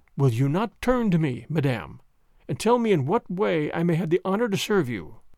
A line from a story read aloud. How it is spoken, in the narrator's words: He restrained himself with a tremendous effort of will, and said coldly, though still very gently